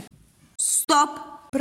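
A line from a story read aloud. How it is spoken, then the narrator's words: Deep bass voice. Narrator (Russian): пробасил Дубыня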